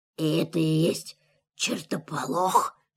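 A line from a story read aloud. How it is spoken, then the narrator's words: Whisper. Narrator (Russian): шепнул он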